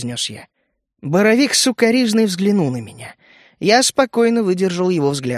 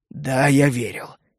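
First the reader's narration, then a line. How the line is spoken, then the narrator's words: Quiet. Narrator (Russian): тихо ответил он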